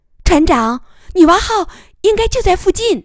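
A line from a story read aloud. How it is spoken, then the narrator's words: Startled, doubtful report. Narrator (Chinese): 艾玛 惊疑的报告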